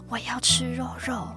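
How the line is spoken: Panting through gritted teeth. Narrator (Chinese): 瑞瑞大口喘气，咬牙切齿地说着

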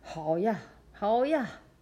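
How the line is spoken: Father shouting. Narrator (Chinese): 连爸爸也大喊

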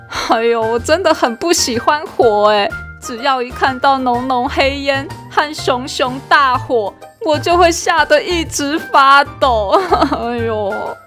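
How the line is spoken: Crying while speaking. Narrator (Chinese): 小一边哭边说

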